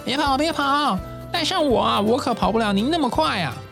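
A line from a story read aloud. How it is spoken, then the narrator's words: Desperate straining shout. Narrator (Chinese): 青蛙扯着嗓子拼命的叫喊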